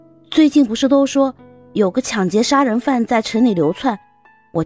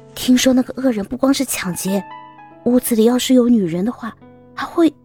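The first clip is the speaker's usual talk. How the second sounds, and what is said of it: Quiet whispered speech. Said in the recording (Chinese): “趴在她的耳边小声的说着”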